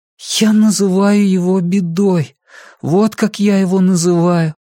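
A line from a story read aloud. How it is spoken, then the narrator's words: Thin high voice. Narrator (Russian): тонким голосом ответил Джордан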